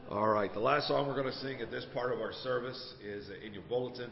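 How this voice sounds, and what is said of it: Worn, strained voice. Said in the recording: “My voice is a little shot this morning.”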